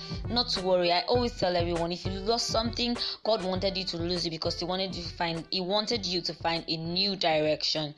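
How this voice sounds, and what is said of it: Speaking very fast. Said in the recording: “I'm talking too fast.”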